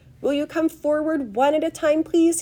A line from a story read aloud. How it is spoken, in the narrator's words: he called out